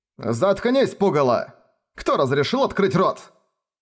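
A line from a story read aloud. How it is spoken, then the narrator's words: Old man barking. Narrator (Russian): Рявкнул старик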